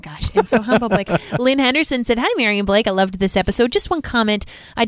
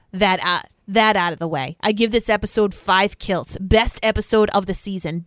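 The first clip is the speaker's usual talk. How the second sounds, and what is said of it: New York accent. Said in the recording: “talk like my New York accent?”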